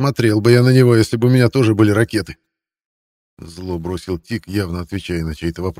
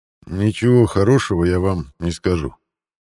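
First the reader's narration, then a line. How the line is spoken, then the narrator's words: Quiet. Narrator (Russian): негромко произнес Лой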